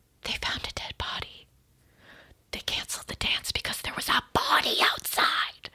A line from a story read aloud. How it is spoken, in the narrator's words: people start whispering